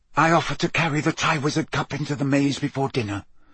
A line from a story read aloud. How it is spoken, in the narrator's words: whispered Barty Crouch